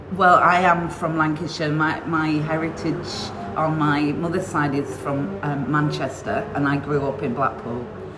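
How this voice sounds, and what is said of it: Northern English accent. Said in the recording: “you've got a lovely accent.”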